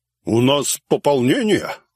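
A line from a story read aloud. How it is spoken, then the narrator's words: Snort close to ear. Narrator (Russian): хмыкнул над моим ухом Дизель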